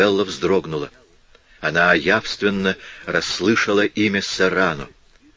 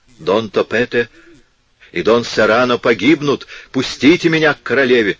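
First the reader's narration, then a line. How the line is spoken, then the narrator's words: Shouting in broken Spanish. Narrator (Russian): кричал немного ломаным испанским языком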